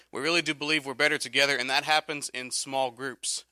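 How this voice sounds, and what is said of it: Rough, strained voice. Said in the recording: “You'll have to excuse my voice. I'm battling some allergies”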